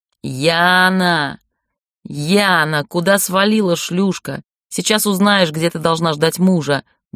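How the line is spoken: Loud shouting. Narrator (Russian): громко кричал

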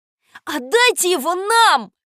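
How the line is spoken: Shout. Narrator (Russian): закричал я

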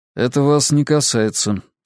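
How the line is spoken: Dry reply. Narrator (Russian): сухо ответил

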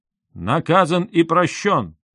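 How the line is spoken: Loud admiring shout. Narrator (Russian): Князь Чигор восхищенно, как старший по годам, громко выкрикнул

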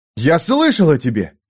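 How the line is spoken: Excited exclamation. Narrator (Russian): взволнованно воскликнул Бальт

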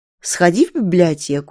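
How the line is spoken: Calm reply. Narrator (Russian): спокойно отвечает Сорока

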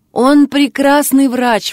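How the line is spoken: Neighbor exclaiming. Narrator (Russian): воскликнула соседка

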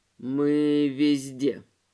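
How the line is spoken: Booming lifeless voice. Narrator (Russian): ответил ему гулкий неживой голос

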